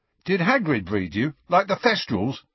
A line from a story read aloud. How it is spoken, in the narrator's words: asked Dean eagerly